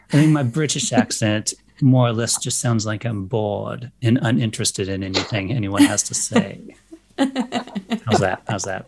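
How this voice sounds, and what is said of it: Posh British accent, bored tone. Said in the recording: “It definitely sounded posh. It definitely sounded posh. ... what would be kind of like posh standard South African at times”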